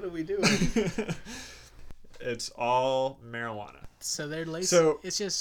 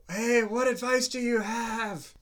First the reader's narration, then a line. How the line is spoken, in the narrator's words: Alexer shouted